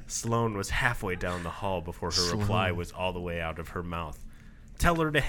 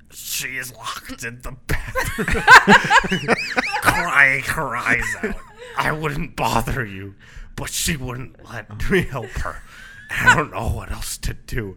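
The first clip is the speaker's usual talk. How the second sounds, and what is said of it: Put-on hoarse, strained voice. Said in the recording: “his words still came out hoarse and strained ... That's my hoarse and strained voice ... that hurt my voice to say”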